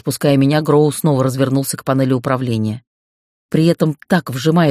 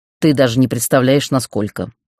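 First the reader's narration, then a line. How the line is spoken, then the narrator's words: Snorting. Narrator (Russian): хмыкнул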